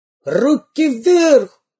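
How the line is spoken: Shrill yell. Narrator (Russian): пронзительно заорал первый разбойник

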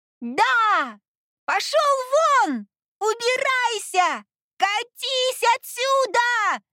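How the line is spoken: Confident shouting. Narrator (Russian): Самоуверенно кричала она вслед

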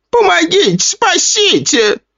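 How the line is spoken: Shrieked. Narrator (Russian): завизжала она

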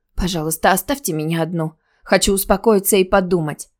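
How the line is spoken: Pleading whisper. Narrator (Russian): Алиса, обхватив голову руками, умоляюще прошептала

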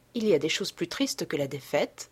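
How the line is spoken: Plain. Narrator (French): répondit-elle

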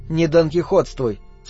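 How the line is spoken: Calm, wife. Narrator (Russian): спокойно сказала жена

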